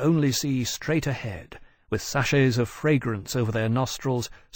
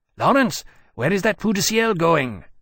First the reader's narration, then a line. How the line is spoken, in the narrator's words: Temeraire said urgently